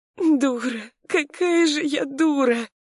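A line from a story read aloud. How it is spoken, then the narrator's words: Sobbing woman. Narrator (Russian): всхлипнула женщина, раздражаясь рыданиями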